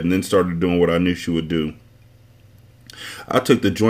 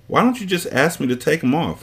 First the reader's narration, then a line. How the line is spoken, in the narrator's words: I asked